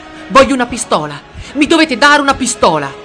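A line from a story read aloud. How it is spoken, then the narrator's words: Sudden screaming. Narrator (Italian): Rudolf a un tratto si mise a urlare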